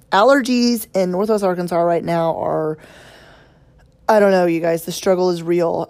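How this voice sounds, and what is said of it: Hoarse, croaky voice. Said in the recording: “I'm going to sound a little different today because I'm losing my voice ... I do not sound like myself ... I just sound like, I don't know, like I've swallowed a toad or something like that”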